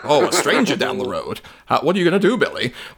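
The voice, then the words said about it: Old educational film narrator voice. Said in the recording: “those industrial educational movies ... You're doing that voice”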